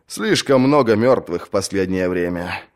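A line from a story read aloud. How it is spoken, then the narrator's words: Sigh, older brother. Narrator (Russian): вздохнул старший брат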